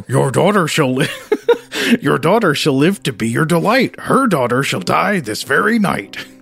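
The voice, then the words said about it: Cartoon dog voice. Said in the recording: “do a dog voice ... do I do a Scooby-Doo voice here?”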